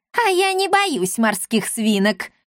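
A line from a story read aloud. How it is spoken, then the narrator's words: Old woman laughing loudly. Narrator (Russian): расхохоталась старушка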